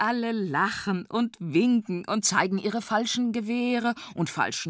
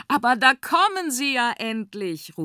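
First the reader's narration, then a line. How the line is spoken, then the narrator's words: Calling out. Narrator (German): ruft er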